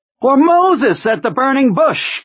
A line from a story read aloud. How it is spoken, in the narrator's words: Kurtz cried, his lean and rather horsey face lit with a daffy smile